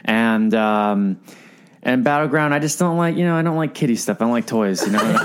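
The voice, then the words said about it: Imitates another person's voice. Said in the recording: “that's my Randall impression.”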